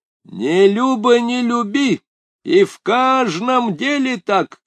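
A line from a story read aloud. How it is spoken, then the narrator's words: Shouted. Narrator (Russian): крикнул Нажиб с носом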